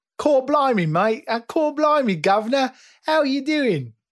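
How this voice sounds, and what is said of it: Exaggerated British accent. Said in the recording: “Does that sound like me or does that sound like an exaggeration?... it sounds like an exaggeration”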